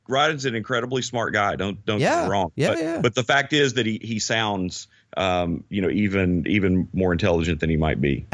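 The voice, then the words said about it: Noticeable regional accent. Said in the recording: “you hear my accent and you immediately think, hey, that guy can't be very smart ... with Jeff Foxworthy. I just own it.”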